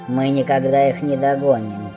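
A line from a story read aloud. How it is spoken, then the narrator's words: Grumbling. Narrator (Russian): проворчал гном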